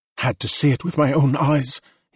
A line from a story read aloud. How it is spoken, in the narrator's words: whispered